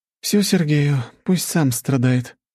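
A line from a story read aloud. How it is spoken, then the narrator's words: Sighing. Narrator (Russian): вздохнула Анна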